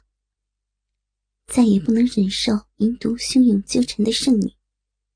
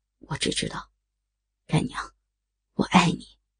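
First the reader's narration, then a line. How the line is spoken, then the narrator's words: Deep, grave. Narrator (Chinese): 少年缓缓的摇头，沉声回答道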